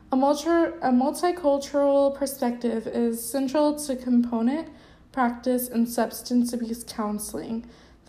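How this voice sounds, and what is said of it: Scratchy, strained voice. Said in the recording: “it sounds like I'm losing my voice. It just gets scratchy sometimes.”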